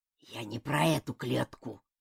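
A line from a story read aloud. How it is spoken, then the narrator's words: Growl. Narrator (Russian): прорычал Толстый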